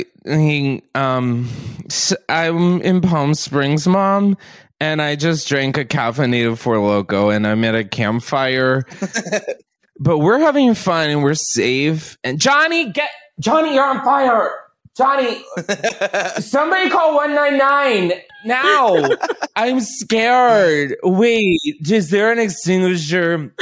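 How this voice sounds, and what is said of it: Acts like a drunk person. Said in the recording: “do your best impression of a drunk person stumbling around a bonfire”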